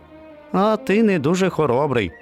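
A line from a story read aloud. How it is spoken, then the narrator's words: Laughing. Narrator (Ukrainian): засміявся песик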